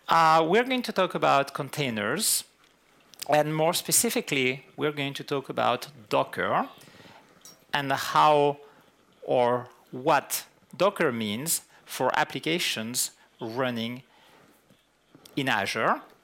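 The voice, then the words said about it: French-accented English. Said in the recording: “my French accent rises from time to time ... I tend to have the French coming back”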